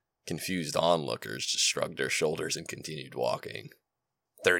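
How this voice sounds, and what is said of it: Usual voice. Nothing is said of it.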